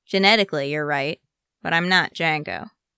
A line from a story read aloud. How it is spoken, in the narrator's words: Rex says dryly